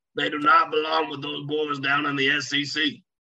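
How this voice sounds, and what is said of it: Put-on Southern US accent. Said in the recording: “was that your Coach O impersonation there ... it's my Southern voice impression”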